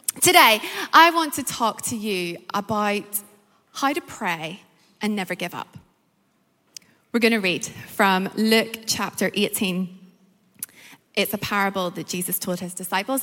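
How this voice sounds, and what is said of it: Northern Irish accent. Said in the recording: “My accent is Northern Irish”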